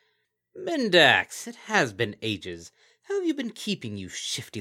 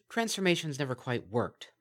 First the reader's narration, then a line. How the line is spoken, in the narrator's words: muttered Bonbon